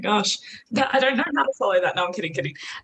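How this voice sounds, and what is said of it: Australian accent. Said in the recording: “if you can't tell by the accent, I'm also Aussie”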